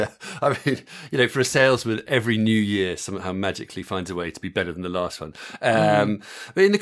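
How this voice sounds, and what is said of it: Usual voice. Nothing is said of it.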